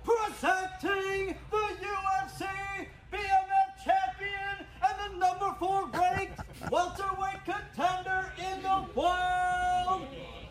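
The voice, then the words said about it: Fight ring announcer impression. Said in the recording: “It's a good impression. ... he's even got Buffer's mannerisms down.”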